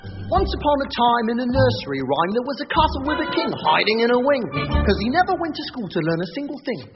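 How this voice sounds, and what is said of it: Put-on Cockney accent. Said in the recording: “that's a Cockney accent”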